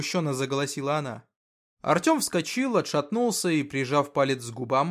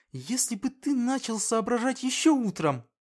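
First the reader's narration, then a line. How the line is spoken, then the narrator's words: Through gritted teeth. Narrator (Russian): процедила она сквозь зубы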